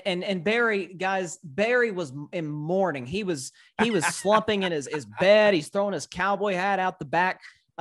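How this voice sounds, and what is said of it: Slight Southern US accent. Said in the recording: “I'm from Tennessee. So I have that slight little Southern draw.”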